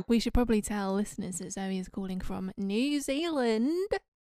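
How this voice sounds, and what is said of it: Poor put-on New Zealand accent. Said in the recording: “That is a poor accent.”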